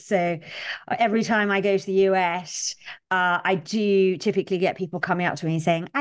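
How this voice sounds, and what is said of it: Strong British accent. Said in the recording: “I have a very strong British accent.”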